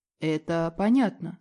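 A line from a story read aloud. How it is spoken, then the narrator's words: Calm reply. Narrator (Russian): спокойно отвечает Ратмир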